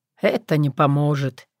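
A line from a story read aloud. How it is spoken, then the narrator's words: Quiet. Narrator (Russian): тихо сказал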